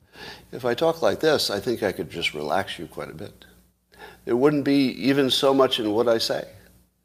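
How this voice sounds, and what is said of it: Calm, relaxing soothing voice. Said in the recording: “talk in a type of voice that you would find relaxing ... a tone of voice which most people would find relaxing”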